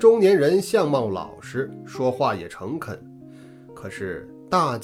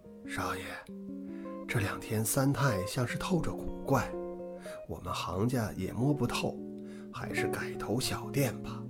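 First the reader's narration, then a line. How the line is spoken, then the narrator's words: Lowered voice, middle-aged man. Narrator (Chinese): 那中年人压低了声音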